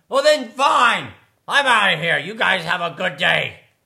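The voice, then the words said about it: Angry shouting character line. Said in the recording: “stomping angrily off ... sorry for shouting”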